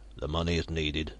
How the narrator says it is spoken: Sharp said, in a dour bass voice

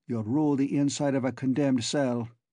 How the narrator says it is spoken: said Cullen coldly

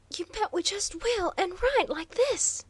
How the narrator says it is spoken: spluttered Waldo

